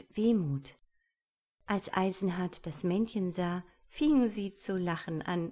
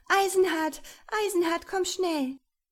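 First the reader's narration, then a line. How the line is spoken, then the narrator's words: Shouted. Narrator (German): schrie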